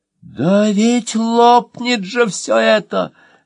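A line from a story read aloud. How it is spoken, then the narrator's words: Wailing moth. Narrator (Russian): завопил мотылек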